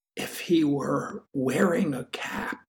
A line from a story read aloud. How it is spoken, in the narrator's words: Matthew whispers